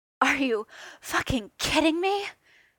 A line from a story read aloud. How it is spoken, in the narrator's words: Clint gasped out